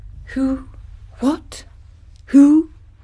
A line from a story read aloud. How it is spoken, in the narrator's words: he stammered